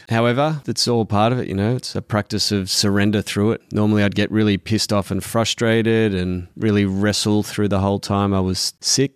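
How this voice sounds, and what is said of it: Tired, fatigued voice. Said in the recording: “you can probably hear it in my voice. It's still pretty fatigued.”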